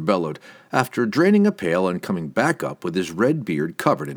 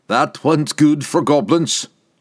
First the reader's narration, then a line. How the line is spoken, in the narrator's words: Wulfgar roared, his voice dull